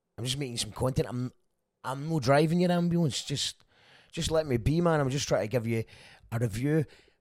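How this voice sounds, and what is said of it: Scottish accent. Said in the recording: “once AI figures out the Scottish accent ... If you'd rather a blog with no accent ... One day they will figure out the Scottish accent.”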